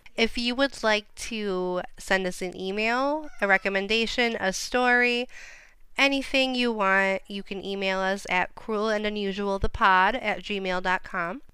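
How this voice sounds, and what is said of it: Speaking very slowly. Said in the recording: “I'm talking so slowly”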